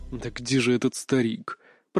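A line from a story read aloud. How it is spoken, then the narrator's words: Whisper. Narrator (Russian): прошептал Иван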